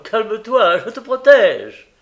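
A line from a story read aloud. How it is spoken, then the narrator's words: Laughing. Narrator (French): Aulus dit en riant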